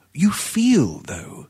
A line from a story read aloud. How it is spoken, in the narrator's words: she interrupted swiftly, the passionate tenderness in her voice but half suppressed